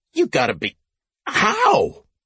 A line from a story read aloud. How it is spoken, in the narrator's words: she sputtered